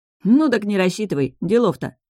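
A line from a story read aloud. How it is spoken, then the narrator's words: Dismissive snort. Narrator (Russian): хмыкнул Орин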